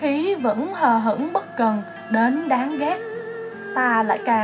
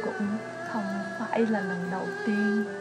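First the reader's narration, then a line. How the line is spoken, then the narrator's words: Faint laugh, soft whisper. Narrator (Vietnamese): Hắn nhẹ giọng cười mờ nhạt, thì thầm rất nhỏ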